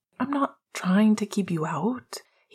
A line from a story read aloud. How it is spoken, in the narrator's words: he sighed